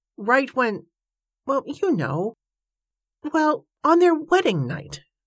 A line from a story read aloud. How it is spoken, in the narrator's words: Joshua stammered